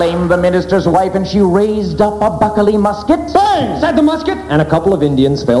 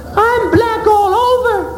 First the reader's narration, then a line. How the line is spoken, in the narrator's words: cried Goody Proctor